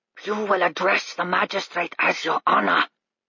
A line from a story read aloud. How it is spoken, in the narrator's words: he hissed